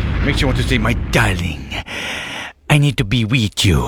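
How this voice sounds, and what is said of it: Bad put-on Latino accent. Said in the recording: “this is a bad accent. ... Very bad.”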